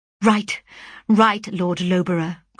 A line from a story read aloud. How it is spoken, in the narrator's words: cried I